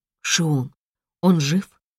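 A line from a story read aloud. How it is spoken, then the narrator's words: Strained, choked-up. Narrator (Russian): с трудом выдавила я, стараясь сглотнуть вставший в горле ком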